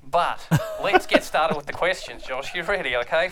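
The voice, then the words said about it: Put-on accent, hard to sustain. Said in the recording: “I'm finding it very hard to keep this accent going”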